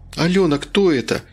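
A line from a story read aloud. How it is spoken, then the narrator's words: Frightened. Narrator (Russian): испуганно проговорил Ванька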